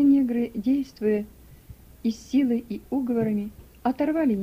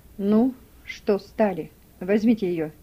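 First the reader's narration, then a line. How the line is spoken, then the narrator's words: Dry. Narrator (Russian): сухо сказал Гейли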